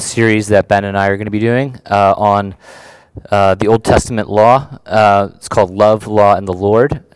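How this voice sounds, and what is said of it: Voice sounds different, not fully recovered. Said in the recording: “if I sound a little different ... a little bit of a throat issue this week ... my voice is taking a little bit to come back ... might have to clear my throat a little bit more than usual”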